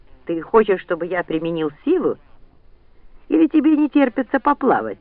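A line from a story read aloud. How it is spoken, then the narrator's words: Exasperated exclamation. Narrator (Russian): в сердцах воскликнул Ранд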